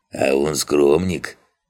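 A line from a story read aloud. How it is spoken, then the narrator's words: Gnome chuckling. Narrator (Russian): хохотнул один из гномов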